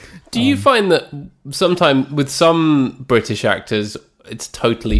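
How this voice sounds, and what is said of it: Usual voice. Nothing is said of it.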